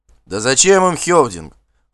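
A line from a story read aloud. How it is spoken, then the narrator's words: Exclaimed. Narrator (Russian): воскликнул кто-то из соседей по столу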